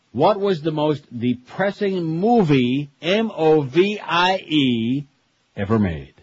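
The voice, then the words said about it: Very slow, deliberate speech. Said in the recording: “read it very slowly.”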